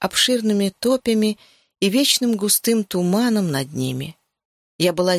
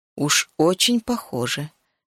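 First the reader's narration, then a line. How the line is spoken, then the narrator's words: Quiet. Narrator (Russian): тихо проговорила Сиобан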